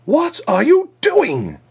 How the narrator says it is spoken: the ambassador shrieked

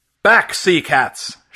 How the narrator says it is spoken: shouted Fury

